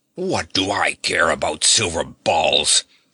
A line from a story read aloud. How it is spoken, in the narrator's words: snarled Wutz, who was in a terrible temper